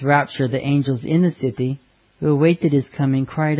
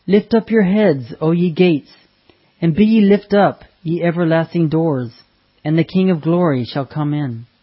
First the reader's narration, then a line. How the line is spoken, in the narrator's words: the angels who escorted Jesus cried out